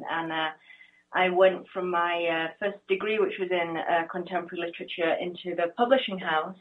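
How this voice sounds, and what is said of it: English accent. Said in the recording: “I grew up in England, you can probably hear from the accent”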